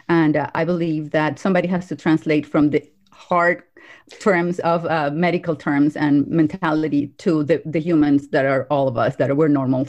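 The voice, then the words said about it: Slight accent. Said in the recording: “I have a little tiny, teeny accent”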